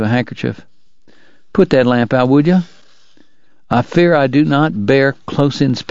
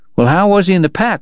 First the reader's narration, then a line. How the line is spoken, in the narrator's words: Wyatt asked